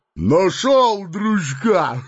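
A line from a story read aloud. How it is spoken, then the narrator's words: Coarse laughter. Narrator (Russian): Грубо захохотал Бугай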